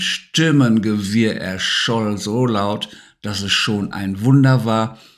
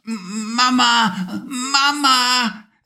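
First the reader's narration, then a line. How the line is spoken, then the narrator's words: Sleepy calling out. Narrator (German): rief er noch etwas schlaftrunken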